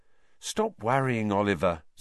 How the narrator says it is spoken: said Alicia soothingly

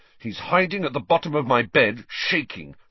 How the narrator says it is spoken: said Ron angrily

